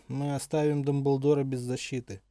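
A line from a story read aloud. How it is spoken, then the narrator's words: Gloomy reply. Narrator (Russian): мрачно отозвался оборотень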